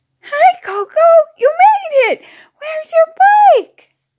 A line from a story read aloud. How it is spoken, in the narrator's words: Crystal cried out